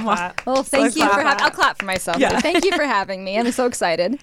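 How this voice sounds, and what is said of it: Chill Californian Valley Girl-like voice. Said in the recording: “you have a very unique voice ... That California accent ... it's almost Valley Girl-esque ... I have like a very chill voice”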